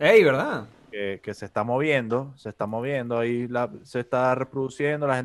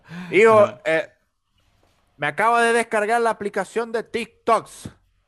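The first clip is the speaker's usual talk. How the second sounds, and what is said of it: Voice of an old-fashioned uncle. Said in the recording (Spanish): “iba a ser una imitación de, de... tío que descubre en TikTok.”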